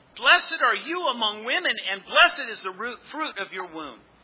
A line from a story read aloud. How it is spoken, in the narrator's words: Elizabeth was filled with the Holy Spirit, and she exclaimed with a loud cry